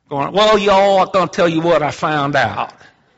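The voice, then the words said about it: Heavy country bumpkin accent. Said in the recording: “he's got a heavy accent ... He's a country bumpkin.”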